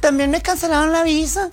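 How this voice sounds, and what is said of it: Imitated Chihuahua regional accent. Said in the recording (Spanish): “Con el acento de Chihuahua.”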